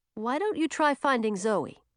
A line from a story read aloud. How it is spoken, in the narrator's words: said Francis